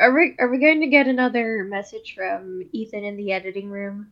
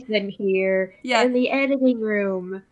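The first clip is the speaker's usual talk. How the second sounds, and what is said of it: Impression of a flat, low-energy voice. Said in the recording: “good impression of the way I sound from the editing chair ... I always sound like... so different when I'm in the editing chair. Like, I'm way more energized when I'm, like, talking to you”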